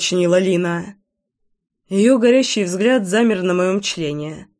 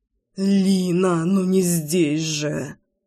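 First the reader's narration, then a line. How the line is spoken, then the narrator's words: Moaning, losing control. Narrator (Russian): Застонал я, но не мог взять себя в руки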